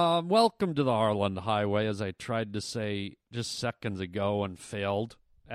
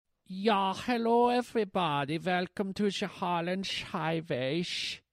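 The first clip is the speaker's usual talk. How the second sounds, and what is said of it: Strange put-on accent. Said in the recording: “I don't know what accent that was, but I think it was mental”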